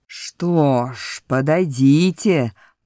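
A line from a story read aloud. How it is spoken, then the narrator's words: Growled. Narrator (Russian): прорычал Боровик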